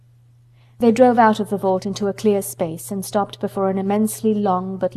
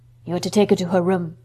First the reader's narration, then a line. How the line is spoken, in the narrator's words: said in a husky voice